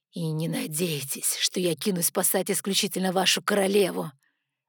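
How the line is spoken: Hissing. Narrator (Russian): Зашипела в сторону Гримиума

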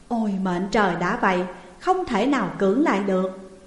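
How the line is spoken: Fearful sigh. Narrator (Vietnamese): Hạng Vương giật mình thức giấc, lòng sợ hãi thở dài rồi nói

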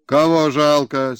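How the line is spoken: Angry old man. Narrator (Russian): сердито возрился старик на Горбатова

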